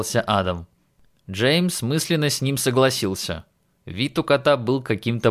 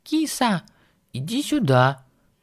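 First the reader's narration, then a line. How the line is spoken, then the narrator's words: Gentle calling. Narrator (Russian): Ласково позвала его Джул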